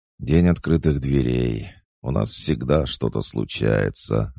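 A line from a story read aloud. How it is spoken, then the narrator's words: Sighing. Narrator (Russian): вздохнула пернатая надзирательница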